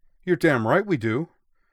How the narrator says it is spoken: Tenryu replied hotly

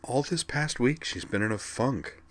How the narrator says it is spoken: Skuld murmured

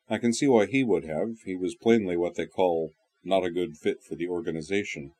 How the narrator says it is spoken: he went on dryly

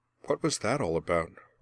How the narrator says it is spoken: Merwin asked quietly

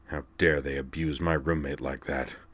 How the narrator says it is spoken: Jacron muttered, his heart not quite up to his usual bluster

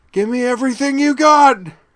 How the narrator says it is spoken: cried at the top of her lungs

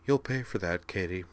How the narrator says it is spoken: she said softly

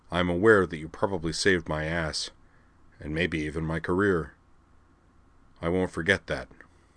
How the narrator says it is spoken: said gravely

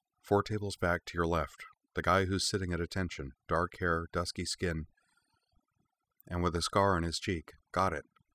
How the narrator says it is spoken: she murmured under her breath

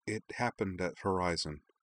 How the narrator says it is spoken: she said quietly

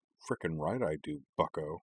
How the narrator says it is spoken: Korra muttered

